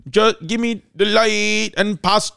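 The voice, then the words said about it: Convincing put-on Jamaican accent. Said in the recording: “watch how good his accent is ... Close your eyes at home and tell me that this is not a Jamaican man”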